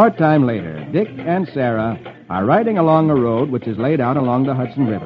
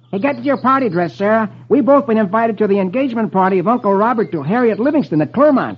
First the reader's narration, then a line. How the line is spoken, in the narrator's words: Dick exclaims gaily